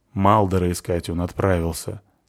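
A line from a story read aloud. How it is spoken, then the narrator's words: Gloomy. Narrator (Russian): сказал мрачно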